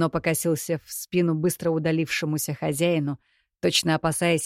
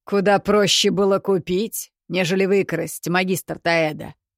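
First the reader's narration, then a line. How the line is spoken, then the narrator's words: Mocking. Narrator (Russian): Насмешливо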